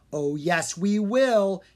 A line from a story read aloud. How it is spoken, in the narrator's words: Drake shouted